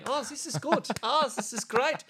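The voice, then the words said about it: Put-on Polish accent, sounds German. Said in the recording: “my Polish accent is like my German accent”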